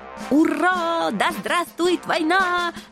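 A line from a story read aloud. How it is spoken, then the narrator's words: Joyful shouting. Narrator (Russian): радостно завопили генералы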